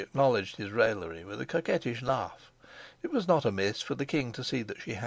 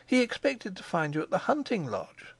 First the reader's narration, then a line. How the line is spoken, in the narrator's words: she cried